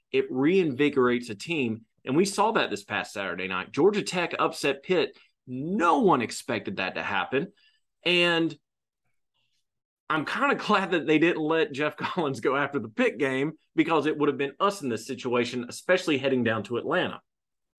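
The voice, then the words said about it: Preaching voice, fervent sermon-like delivery. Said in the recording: “I had to take a breath. I was in my preaching voice.”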